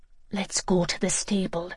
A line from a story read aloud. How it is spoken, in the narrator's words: Joey whispered